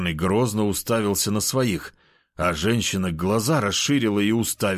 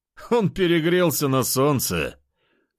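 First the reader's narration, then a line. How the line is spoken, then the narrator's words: Smirking grunt. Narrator (Russian): хмыкнул лидер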